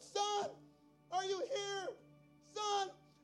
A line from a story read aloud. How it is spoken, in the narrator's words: he just yelled out